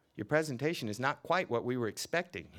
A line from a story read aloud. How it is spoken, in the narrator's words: said